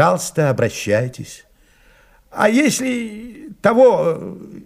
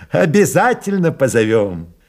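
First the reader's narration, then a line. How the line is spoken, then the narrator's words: Laughing. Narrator (Russian): засмеялся майор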